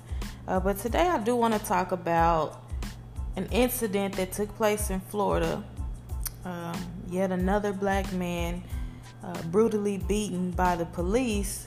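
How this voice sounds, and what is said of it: Sore-throated, just-woken-up voice. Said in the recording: “If I sound like my throat hurts or like I just woke up”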